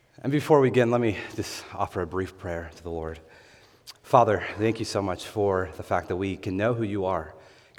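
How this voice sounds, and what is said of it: Hoarse voice. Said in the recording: “my voice sounds a little hoarse. These allergies have been in full bloom.”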